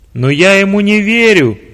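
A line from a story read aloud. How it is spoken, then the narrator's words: Shouting. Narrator (Russian): прокричал начальник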